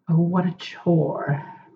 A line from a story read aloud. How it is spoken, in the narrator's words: Crowley drawled